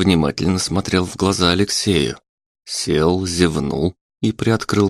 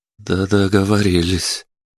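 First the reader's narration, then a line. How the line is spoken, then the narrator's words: Trembling voice. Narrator (Russian): дрогнувшим голосом отозвался Алексей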